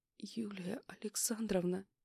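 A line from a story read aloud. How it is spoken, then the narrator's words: Faint whisper breaking into sob. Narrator (Russian): еле слышно прошептала, срываясь на всхлип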